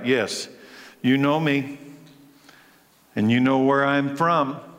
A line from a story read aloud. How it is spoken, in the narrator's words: Jesus, still teaching in the temple courts, cried out